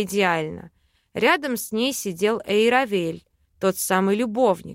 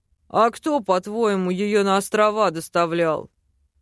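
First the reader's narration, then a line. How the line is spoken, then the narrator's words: Wry snort. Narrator (Russian): хмыкнул док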